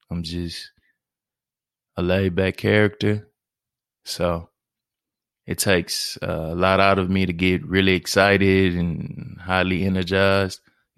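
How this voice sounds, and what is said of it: Southern drawl, flat monotone delivery. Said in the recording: “Excuse my southern drawl. ... Excuse my monotone.”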